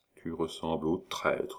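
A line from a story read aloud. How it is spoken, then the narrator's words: Frightened murmur. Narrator (French): murmura Échalot, épouvanté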